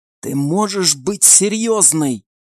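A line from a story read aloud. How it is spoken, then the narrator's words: Strained, restrained whisper. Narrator (Russian): Сдерживаясь из последних сил, чтобы не заорать на Банши, прошептала Альвийка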